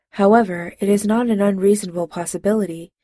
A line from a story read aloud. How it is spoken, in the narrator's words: Spock said calmly